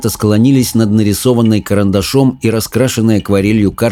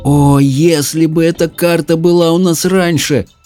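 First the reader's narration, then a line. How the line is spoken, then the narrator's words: Moaning. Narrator (Russian): простонала Мэлори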